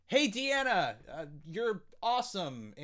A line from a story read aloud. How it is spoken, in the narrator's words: I yell up at Deanna saying